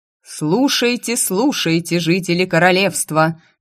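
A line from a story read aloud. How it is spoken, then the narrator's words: Booming crier's shout. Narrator (Russian): зычным голосом кричал городской глашатай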